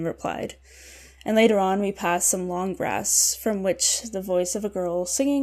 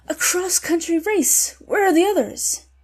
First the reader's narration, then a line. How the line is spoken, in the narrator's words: true energy, and I exclaimed